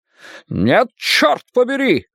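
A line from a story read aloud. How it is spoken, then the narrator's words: Shouting. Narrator (Russian): закричал Фриц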